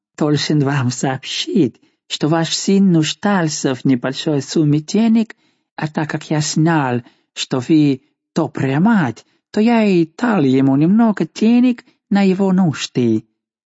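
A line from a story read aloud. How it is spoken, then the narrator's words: Ingratiating explanation. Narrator (Russian): Неизвестный пояснил ей заискивающим тоном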